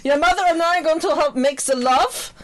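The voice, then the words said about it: Put-on German accent. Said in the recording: “I'm doing a German accent.”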